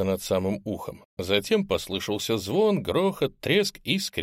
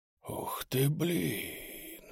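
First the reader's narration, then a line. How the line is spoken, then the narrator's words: Whispering. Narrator (Russian): прошептал я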